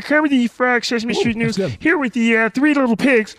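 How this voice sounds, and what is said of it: Kermit the Frog impression. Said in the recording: “So I would do Kermit the Frog.”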